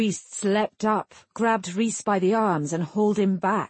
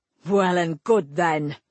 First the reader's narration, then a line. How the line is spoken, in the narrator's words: Rhys snarled